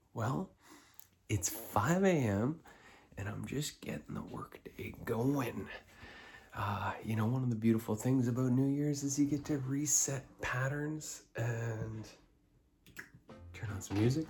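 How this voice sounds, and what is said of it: Whispering. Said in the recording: “I'm whispering.”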